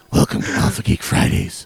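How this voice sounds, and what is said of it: Imitates an actor's Batman voice. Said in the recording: “I'm going to injure myself talking like Christian Bale doing Batman.”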